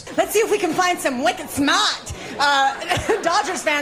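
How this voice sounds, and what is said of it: Put-on Boston accent. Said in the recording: “Los Angeles broadcasters trying to speak in a Boston accent.”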